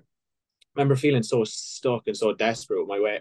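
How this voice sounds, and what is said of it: Irish accent. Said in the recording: “I'm from Ireland, obviously, you probably hear by the accent”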